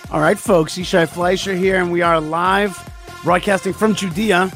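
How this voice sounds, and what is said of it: Slightly worn, strained voice. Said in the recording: “Sorry about my voice a little bit, but that's just because I've been playing out in the snow”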